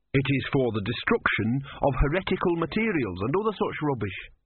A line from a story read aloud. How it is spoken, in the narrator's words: said Brother